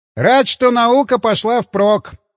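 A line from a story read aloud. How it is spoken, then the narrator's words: Wry grunt. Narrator (Russian): хмыкнул Климов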